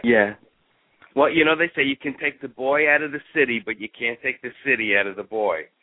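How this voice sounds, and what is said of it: New York Bronx accent. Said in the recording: “you don't have the Texas slur. You're still a little more of the Bronx there ... most of my New York accent's still there”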